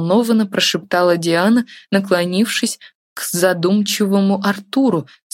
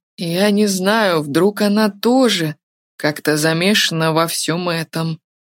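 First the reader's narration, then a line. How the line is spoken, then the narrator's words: Hoarse young man's voice. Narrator (Russian): Хриплым голосом проговорил юноша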